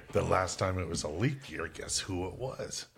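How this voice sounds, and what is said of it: Imitates another person's voice. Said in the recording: “do my Julian Edelman voice”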